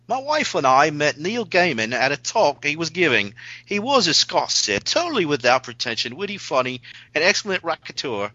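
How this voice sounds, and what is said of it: Put-on English accent, poorly done. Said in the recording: “it works better if you say it with an English accent ... our English accents are horrible”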